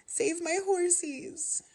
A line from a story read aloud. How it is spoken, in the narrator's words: she cried over and over